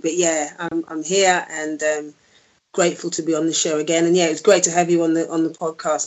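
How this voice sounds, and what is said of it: Hoarse, croaky voice. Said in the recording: “my throat's a little bit hoarse, so you have to forgive me if I sound a little bit croaky”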